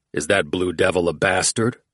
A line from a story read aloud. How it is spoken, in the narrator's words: Oates growled